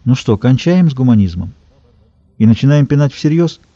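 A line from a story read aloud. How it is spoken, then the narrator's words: Soft, cultured, bored tone. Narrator (Russian): Кот-ученый, заскучавший, должно быть, из-за совершеннейшего своего неучастия в событиях, предложил мягким интеллигентным тоном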